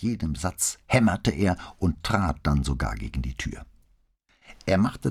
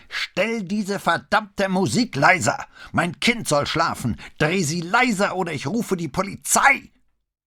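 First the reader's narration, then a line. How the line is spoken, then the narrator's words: Screaming as loud as possible. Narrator (German): so laut er konnte schrie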